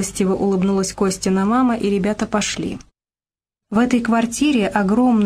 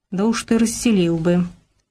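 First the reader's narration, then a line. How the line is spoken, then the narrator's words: Smirking. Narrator (Russian): усмехнулся Робко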